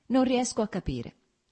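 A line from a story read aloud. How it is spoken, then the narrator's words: Plain. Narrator (Italian): rispose Lievin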